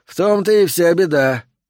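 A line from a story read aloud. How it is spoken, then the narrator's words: Sigh. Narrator (Russian): вздохнул Джентри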